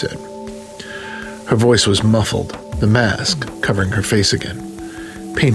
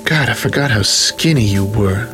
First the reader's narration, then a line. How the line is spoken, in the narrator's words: purred